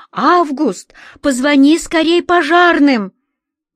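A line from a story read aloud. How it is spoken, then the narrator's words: Woman shouting from afar. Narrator (Russian): Какая-то женщина в ночной рубашке закричала ему с балкона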